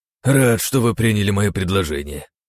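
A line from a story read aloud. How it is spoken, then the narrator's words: Relieved sigh. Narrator (Russian): с облегчением вздохнул Кораблев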